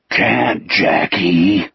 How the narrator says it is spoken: Wolf spoke in a thunderous stage whisper

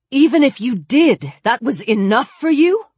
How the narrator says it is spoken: Chris cried

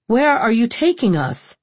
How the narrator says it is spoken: She shouted at the boat's skipper

